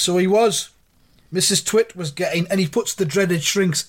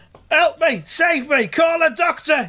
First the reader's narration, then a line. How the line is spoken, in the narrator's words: yelled Mr